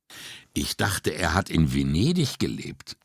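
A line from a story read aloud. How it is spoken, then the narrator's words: Plain. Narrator (German): sagte Brunetti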